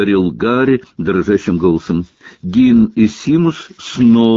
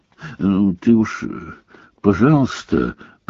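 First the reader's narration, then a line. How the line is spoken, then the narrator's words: Muffled mutter. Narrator (Russian): приглушенно пробормотал Рон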